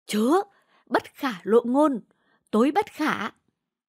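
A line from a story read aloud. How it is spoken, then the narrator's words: Fearful hurried speech. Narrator (Vietnamese): Ông cửu ra dáng sợ hãi, xua tay nói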